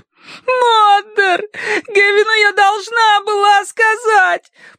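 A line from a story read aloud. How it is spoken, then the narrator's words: Sobbing. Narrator (Russian): прорыдала она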